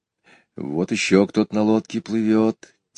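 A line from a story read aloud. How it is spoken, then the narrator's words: Quiet. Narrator (Russian): тихо сказал Петя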